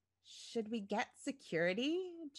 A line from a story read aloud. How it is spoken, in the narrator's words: Janet murmured to Tad